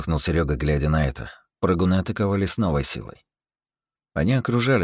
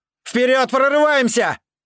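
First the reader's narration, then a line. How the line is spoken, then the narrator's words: Shouted. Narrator (Russian): крикнул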